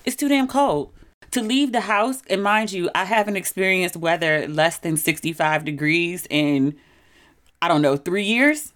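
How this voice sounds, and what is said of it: Maryland accent. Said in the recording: “I can hear my Maryland accent again”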